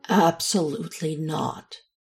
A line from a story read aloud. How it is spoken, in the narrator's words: Alex said, firmly and as calmly as he could manage